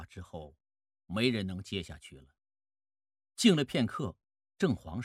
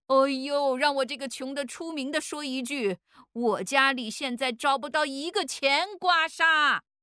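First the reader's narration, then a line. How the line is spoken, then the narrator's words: Shouting. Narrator (Chinese): 有人喊叫着跟了一句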